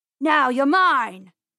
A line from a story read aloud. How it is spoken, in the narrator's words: yelled